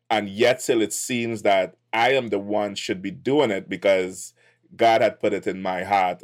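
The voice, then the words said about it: Trinidadian accent. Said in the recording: “my twang or accent ... Where does that accent hail from? ... originally from Trinidad”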